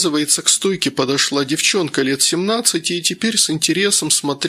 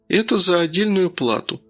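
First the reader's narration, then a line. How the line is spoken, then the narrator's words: Dry. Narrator (Russian): сухо сказала Лариса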